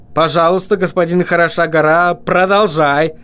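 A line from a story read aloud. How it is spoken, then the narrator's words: Shouted over the din. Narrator (Russian): крикнул Вильям так, чтобы гном услышал его сквозь вопли и лай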